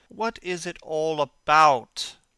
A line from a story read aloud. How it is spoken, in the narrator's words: cried Dorian, in his petulant way